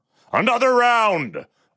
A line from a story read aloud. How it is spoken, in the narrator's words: Loreg shouted